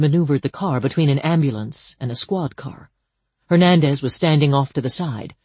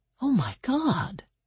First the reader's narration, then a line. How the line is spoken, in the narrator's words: Danny whispered